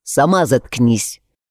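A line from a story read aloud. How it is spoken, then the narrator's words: Snapping retort. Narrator (Russian): огрызнулся в ответ Андри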